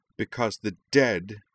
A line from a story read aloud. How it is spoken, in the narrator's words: Utrina snarled